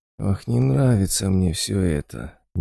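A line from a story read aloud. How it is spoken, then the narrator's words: Quiet drawl. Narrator (Russian): негромко протянул Болт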